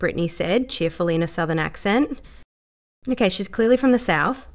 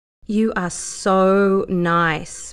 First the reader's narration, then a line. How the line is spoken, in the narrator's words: Brittany said back slowly